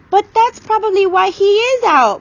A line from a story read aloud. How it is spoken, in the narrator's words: Meg wailed